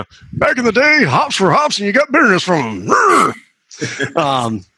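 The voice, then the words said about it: Old man impression. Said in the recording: “break out my old man impression”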